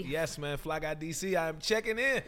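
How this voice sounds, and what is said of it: Smooth radio announcer voice. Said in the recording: “You got that radio voice already.”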